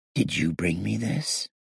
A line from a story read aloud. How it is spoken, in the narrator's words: I asked Lel with a whisper